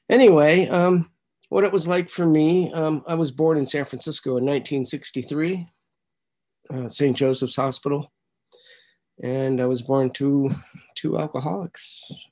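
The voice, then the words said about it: Slightly raspy, congested voice. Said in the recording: “my voice is a little raspy because I'm going through some allergies, head cold stuff going on”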